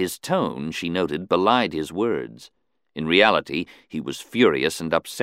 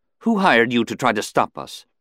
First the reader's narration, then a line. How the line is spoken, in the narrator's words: she couldn't keep from blurting